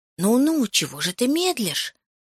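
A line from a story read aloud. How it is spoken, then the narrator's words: Trembling whisper. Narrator (Russian): зашептал он, дрожа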